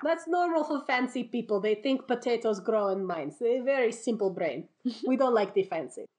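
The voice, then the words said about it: Put-on Russian accent. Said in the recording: “I'm so sorry to anybody listening with an actual Russian accent. ... Your Russian accent is definitely better than your Irish.”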